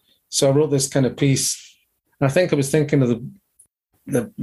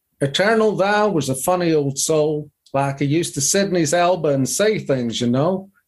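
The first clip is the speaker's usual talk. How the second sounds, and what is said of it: Put-on southern drawl. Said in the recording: “I'm going to have to read this in a southern drawl”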